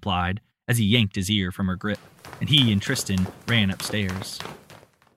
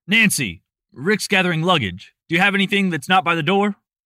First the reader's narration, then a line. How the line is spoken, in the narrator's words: Andrew shouted across the hall